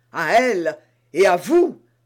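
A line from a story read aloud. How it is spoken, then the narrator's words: Exclaimed. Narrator (French): s'écria d'Artagnan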